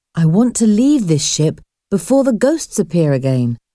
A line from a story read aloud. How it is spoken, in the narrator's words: said Paul